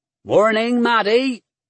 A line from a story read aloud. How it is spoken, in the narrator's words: he said cheerfully